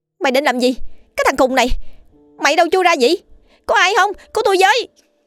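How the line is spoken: Woman screaming. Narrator (Vietnamese): chị hét lên

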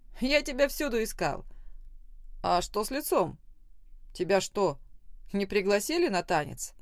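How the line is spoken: Laughing. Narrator (Russian): Похохотал

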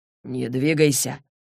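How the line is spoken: Quiet. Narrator (Russian): тихо проговорил он

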